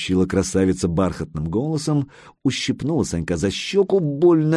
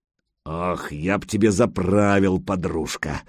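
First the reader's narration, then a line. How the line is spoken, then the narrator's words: Admiring deep voice. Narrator (Russian): восхищенно пробасил Гучко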